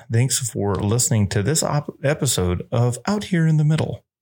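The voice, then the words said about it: Public radio announcer voice. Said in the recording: “That's my best NPR impersonation.”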